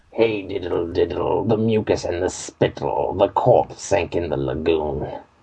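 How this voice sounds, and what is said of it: Impersonation of an undead voice. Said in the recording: “highly impressed with your impersonation of an undead ... let you hear for yourself how good Zog is”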